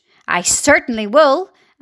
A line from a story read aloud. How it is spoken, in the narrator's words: Aunt Spiker snapped